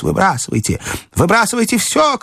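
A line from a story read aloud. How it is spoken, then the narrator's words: Shout. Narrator (Russian): крикнул доктор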